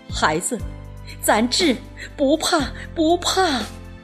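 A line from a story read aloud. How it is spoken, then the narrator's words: Old man weeping. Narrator (Chinese): 哭得酣畅淋漓，大爷也跟着小飞老泪纵横，哭说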